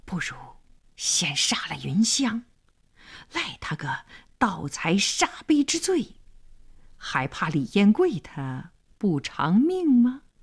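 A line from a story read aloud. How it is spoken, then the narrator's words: Menacing whisper. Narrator (Chinese): 黄良眼里闪着凶光，小声说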